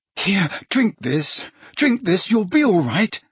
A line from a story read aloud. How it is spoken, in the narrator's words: said Harry desperately